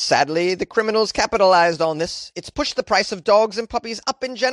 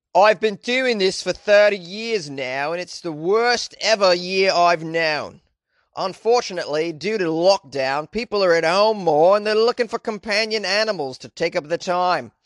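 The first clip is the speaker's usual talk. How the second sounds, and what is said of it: Put-on Australian accent. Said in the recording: “I don't know why my accent is Australian right now. I'm supposed to be in the UK.”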